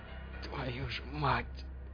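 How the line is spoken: Whisper. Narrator (Russian): прошептал Шептун

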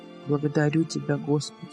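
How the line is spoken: Whispered prayer. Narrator (Russian): шептали губы кожевенника

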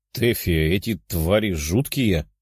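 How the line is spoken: Grumbling princess. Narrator (Russian): проворчала принцесса

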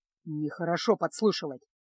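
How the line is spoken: Muttering. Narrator (Russian): буркнул Кайл, безуспешно пытаясь откопать переднее колесо

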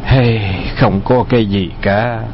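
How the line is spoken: Sighing after long silence. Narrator (Vietnamese): Từ Tử Lăng trầm mặc hồi lâu, thở dài nói

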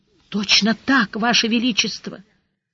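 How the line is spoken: Weak voice, soaked guardsman. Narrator (Russian): Слабым голосом поддержал мокрехонький гвардеец

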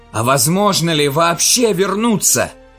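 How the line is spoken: Shouting over clanging din. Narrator (Russian): крикнул Андерс посреди лязгающего грохота кристаллического зверя, от поступи которого земля дрожала, как при землетрясении

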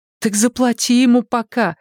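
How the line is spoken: Pleading. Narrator (Russian): взмолилась сестра

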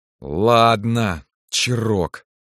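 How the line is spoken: Through gritted teeth. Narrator (Russian): сквозь зубы сказал Кирилл

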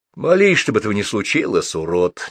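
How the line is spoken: Unkind advising tone. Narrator (Russian): недобрым тоном посоветовал ему на это Гуров

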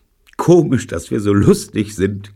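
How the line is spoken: Giggling. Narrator (German): kicherte Jean

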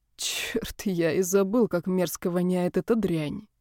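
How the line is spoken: Irritated grumbling. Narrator (Russian): проворчал он, когда Макс закурил

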